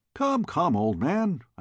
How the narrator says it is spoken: I cried

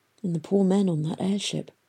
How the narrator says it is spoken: he whispered

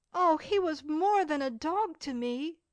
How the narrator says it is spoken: exclaimed Cecil

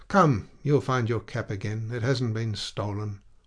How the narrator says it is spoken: in a gentler tone

